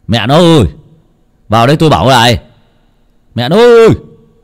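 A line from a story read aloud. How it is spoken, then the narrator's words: Annoyed. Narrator (Vietnamese): ông bực mình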